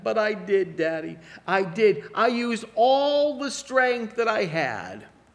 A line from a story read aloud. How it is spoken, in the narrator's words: that little boy, so defeated, sobbed back to his dad